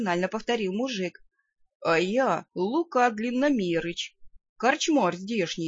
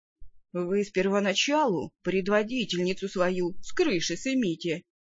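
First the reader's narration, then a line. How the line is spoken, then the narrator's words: Doubtful snort. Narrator (Russian): недоверчиво хмыкнул трактирщик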